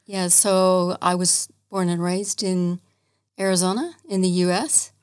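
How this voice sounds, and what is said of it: Non-Australian accent. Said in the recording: “you can tell from our accents that we are not originally from Australia”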